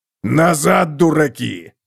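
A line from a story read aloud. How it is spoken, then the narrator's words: Growling shout. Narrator (Russian): прорычал Готрик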